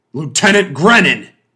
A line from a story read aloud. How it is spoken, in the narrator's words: Montford thundered